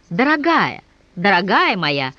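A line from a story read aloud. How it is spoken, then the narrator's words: Exclamation. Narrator (Russian): воскликнула Дарья Филипповна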